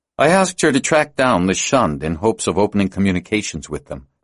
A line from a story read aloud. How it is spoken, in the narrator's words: Fenner said